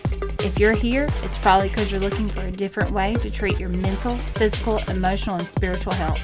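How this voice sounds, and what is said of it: Southern American twang. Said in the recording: “I have a twang because I'm from Georgia”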